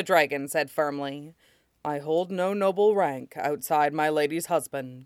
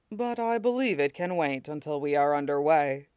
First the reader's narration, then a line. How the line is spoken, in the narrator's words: Shidan said dryly